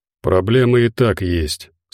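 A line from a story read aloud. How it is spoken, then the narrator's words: Calm reply. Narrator (Russian): спокойно ответил Забы Ягода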